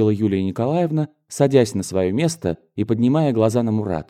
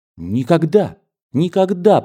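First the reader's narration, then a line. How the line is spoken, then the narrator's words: Excited near-exclamation. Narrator (Russian): почти воскликнула Юлия Николаевна с разгоревшимся лицом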